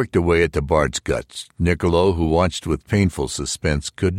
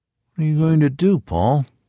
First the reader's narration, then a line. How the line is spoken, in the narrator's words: quavered